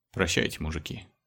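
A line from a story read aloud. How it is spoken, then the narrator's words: Barely audible whisper. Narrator (Russian): чуть слышно прошептал Леха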